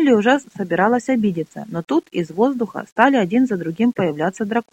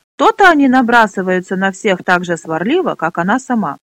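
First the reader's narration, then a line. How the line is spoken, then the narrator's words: Laughing loudly. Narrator (Russian): расхохотался Пьемур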